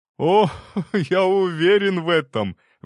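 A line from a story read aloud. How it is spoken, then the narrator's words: Sudden laugh. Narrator (Russian): внезапно рассмеялся Голицын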